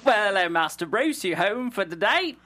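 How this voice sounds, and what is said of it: Attempted British butler accent. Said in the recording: “I can't do a British accent otherwise. I would. ... No, I'm terrible with accents. ... You told me you sucked, and then you didn't lie, but you sucked less than you told me you did.”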